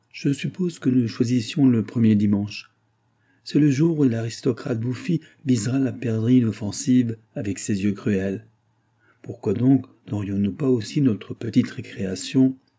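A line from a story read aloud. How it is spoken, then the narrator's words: Exclaimed. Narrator (French): s'écria Henri-Adolphe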